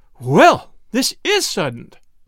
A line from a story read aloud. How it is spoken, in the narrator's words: exclaimed Mrs